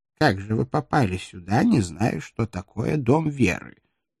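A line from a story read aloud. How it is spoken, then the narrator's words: Contemptuous snort, old man. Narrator (Russian): презрительно фыркнул старичок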